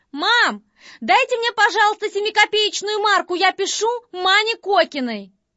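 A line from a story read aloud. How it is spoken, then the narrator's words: Calling out to another room. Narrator (Russian): Катенька крикнула в соседнюю комнатушку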